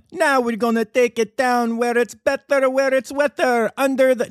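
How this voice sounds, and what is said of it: Badly done put-on accent. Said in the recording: “bad accent”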